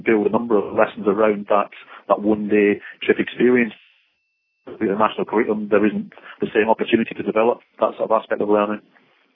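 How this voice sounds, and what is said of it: Mixed accent with a Scottish tinge. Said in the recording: “you've got a mixed accent there, and there's definitely a little bit of Scots in there”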